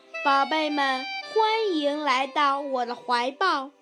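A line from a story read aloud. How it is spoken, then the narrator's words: Smiling mother. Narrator (Chinese): 大地妈妈笑着说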